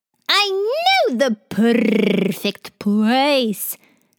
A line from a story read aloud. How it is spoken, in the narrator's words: Khawler said excitedly to her eager friends